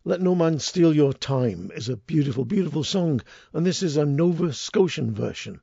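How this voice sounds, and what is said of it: Deep husky voice. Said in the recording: “a little huskiness in my voice, it's not that I've got a cold ... my deep husky, sexy voice”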